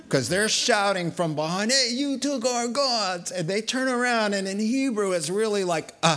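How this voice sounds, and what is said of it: Usual voice. Nothing is said of it.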